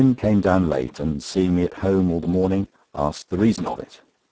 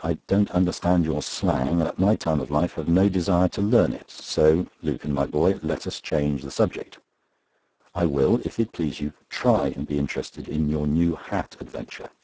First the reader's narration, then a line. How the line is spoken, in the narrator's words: said quietly